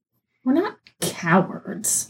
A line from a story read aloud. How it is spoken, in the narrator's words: he grumbled